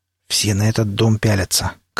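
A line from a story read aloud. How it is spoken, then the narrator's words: Quiet, from mouth corner. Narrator (Russian): краем рта негромко сказал пригоршня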